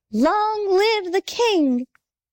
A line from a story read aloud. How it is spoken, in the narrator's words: all the birds cried